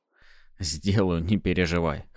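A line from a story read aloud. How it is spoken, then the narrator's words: Snort over phone. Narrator (Russian): хмыкнул в трубку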